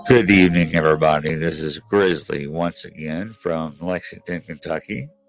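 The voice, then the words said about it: Strained, fading voice. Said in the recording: “I'm losing my voice for some reason.”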